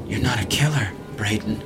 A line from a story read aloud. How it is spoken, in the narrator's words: he murmured